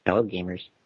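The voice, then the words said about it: Exaggerated nerdy character voice. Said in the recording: “nerd voice... Good nerd voice... a very good nerd voice”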